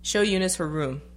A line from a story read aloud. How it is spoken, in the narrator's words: she said